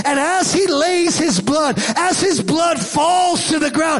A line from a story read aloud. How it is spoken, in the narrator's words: he yells in triumphant voice